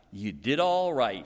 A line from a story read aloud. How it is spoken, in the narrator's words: he said